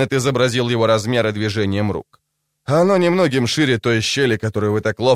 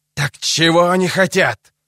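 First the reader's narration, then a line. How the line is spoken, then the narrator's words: Hissed. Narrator (Russian): прошипел он наконец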